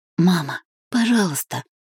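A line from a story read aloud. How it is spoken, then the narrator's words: Pained whisper. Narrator (Russian): прошептала Сибила с наполненными болью глазами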